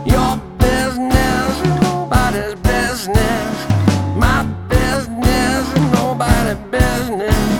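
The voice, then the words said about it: Words spoken slowly and deliberately. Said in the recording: “I say it slowly”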